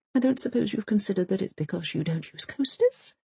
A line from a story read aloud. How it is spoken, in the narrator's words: she mutters, not at all in a passive-aggressive way